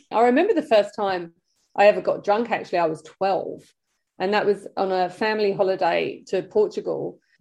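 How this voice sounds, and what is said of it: British accent. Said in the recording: “You'll probably be able to tell by my accent that I was British once upon a time.”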